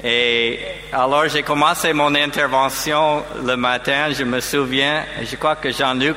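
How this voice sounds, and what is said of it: French spoken with American accent. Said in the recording (French): “j'ai mon accent américain”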